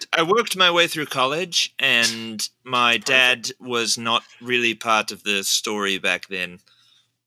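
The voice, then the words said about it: Imitating Elon Musk's accent. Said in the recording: “We have Elon saying ... Oh, wait, what's his accent? I can't do it.”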